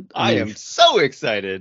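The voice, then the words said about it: Excited, lilting delivery. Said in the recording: “I don't know that sounded as excited. ... Is there a lilt or something you can add?”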